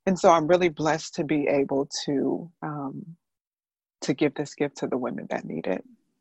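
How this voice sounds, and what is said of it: Emotional, choked-up voice. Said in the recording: “I'm getting emotional... I'm not sorry that I'm getting emotional.”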